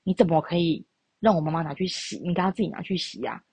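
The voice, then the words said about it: Quiet, hushed voice. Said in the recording (Chinese): “他就用这种很小声的那个部分告诉我说”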